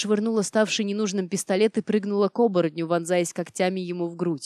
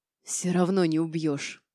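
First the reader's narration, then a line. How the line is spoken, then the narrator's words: Whisper spitting blood. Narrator (Russian): прошептал он мне в лицо, брызгая кровавой слюной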